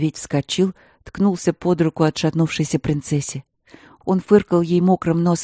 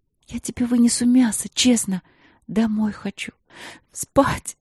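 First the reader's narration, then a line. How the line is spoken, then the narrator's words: Sobbing. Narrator (Russian): На последнем слове она снова всхлипнула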